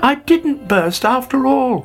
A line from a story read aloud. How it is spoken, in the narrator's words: he cried delightedly